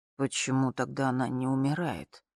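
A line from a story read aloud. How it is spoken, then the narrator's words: Very quiet, near whisper. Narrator (Russian): Очень тихо, почти шепотом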